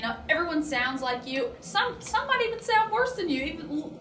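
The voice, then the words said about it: Eastern Kentucky Appalachian accent. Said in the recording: “you can tell from my accent where I'm from ... you sound like cornbread”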